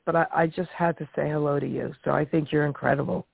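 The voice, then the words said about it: Sick, under-the-weather voice. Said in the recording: “I'm under the weather. That's why my voice sounds like this.”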